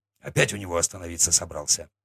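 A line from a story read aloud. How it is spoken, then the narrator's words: Snort, chieftain. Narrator (Russian): хмыкнул атаман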